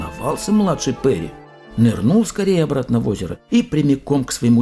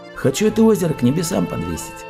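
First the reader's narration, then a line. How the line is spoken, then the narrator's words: Calm answer, young man. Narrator (Russian): Отвечает спокойно младший сын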